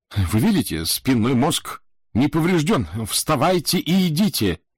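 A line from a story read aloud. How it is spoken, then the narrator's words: Excited exclamation. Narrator (Russian): воскликнул я, от волнения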